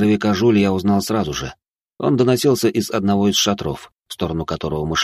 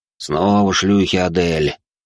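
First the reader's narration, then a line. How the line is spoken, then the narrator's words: Displeased voice. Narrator (Russian): недовольным голосом произнес Тьерри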